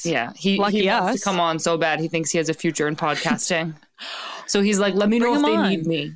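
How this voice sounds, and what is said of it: Boston accent. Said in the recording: “Is your Boston accent back? ... Yeah, it actually is back a lot.”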